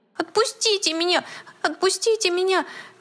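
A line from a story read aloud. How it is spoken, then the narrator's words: Desperate squeal, teddy bear. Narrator (Russian): В отчаянии взвизгнул плюшевый мишка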